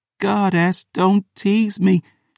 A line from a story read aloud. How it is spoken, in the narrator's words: pleaded